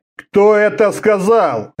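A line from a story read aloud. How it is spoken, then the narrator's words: Barking. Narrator (Russian): рявкнул Орда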